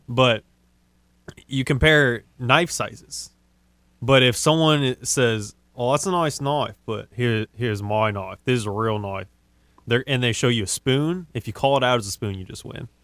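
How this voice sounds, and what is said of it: Put-on Australian accent. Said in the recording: “That's actually a solid Australian accent you got going on over there ... That's pretty solid ... It's a solid 8.5.”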